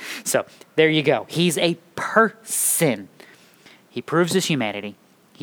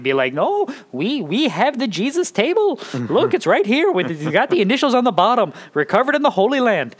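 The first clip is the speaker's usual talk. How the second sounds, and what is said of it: Put-on Eastern European accent. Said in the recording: “don't ask me why I'm using that accent... for Eastern Europe, because I can't do, can I do good Eastern European?”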